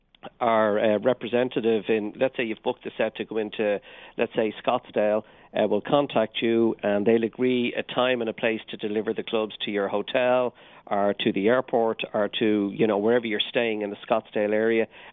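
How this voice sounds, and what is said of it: Irish accent. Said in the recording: “a bit of an Irish accent”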